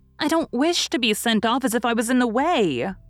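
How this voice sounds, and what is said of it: Hurt, aggrieved tone. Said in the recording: “in an injured voice”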